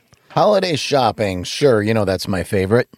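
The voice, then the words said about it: Sarcastic tone. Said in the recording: “Are you being sarcastic? ... Yes”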